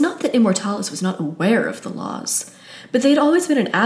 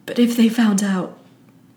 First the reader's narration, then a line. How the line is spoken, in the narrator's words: his voice breaks